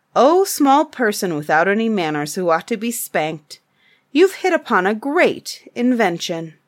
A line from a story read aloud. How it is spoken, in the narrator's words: Then the head chief of the tribe of Tegumai cried and said and sang